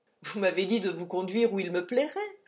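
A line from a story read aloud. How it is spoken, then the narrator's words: Laughing reply. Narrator (French): répondit en riant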